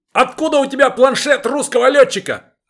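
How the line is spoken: Yelling. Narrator (Russian): орал Старлей

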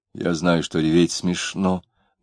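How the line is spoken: Muttering. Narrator (Russian): бормотал Маракуев

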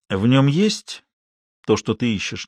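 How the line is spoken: Quiet question. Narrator (Russian): негромко спросил Базо

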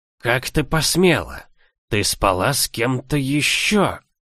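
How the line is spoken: Hissing. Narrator (Russian): Зашипел в лицо

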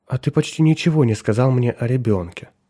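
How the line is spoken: Soft, gentle. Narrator (Russian): мягко проговорила Николь

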